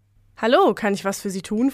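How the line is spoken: Plain question. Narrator (German): fragte Peter

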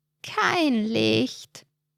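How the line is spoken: Croaking voice close by. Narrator (German): krächzt eine Stimme dicht neben ihm

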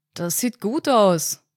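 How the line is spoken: Man's muffled call. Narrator (German): rief der Mann, den Kopf zwischen den Rohren der Gastherme verborgen

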